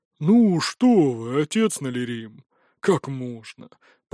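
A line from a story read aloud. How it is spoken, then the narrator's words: Deep bass voice. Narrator (Russian): пробасил второй гость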